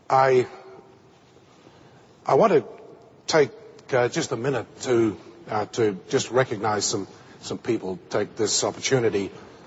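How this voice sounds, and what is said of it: Australian accent. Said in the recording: “make an Australian accent... I'm Australian by origin. That will make an Australian accent even more incomprehensible to you”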